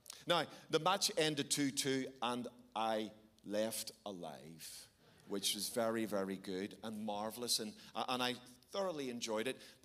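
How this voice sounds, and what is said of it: Northern Irish Belfast accent. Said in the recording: “I'm from Belfast ... That's the strange accent you're hearing. It's English, but not as you know it”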